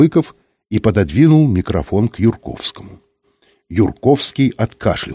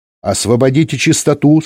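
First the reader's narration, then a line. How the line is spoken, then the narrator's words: Stern female voice. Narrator (Russian): строго сказала женский голос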